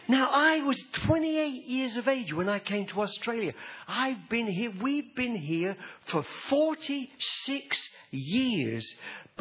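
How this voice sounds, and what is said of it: English accent. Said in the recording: “I'm what they call a POM... I still talk like a POM... I still talk like I'm English”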